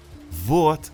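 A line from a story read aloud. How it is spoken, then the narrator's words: Joyful, smiling. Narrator (Russian): радостно заулыбалась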